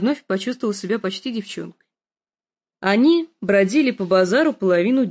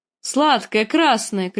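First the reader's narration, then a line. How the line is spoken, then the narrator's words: Shouting in fluent foreign tongue. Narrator (Russian): кричал на беглом дотракийском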